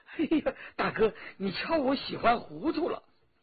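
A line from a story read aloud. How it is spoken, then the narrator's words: Laughing. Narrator (Chinese): 罗宾笑了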